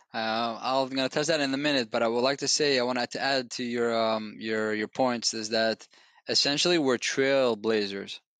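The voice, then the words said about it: Foreign accent, fast talking. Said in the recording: “the speed with which you talk and your accent.”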